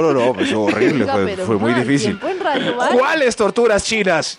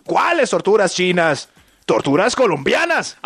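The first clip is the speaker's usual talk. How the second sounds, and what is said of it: Put-on Mexican accent. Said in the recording (Spanish): “¿Y por qué con acento mexicano?”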